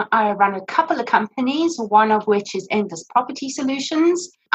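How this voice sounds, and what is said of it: South African accent. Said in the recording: “My parents moved us from Johannesburg in South Africa, you can probably hear from my accent”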